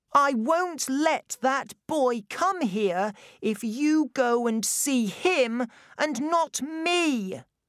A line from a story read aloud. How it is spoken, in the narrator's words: Colin shouted